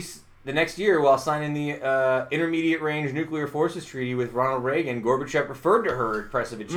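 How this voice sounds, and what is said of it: Usual voice. Nothing is said of it.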